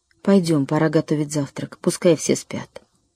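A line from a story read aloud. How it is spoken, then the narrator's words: Quiet. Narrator (Russian): мама тихо сказала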